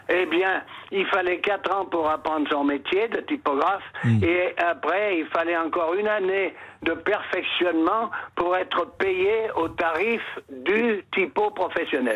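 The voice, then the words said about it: Isère / Grenoble regional French accent. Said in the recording (French): “votre accent de l'Isère qu'on revoit de temps en temps ... de Grenoble, mais on le sent”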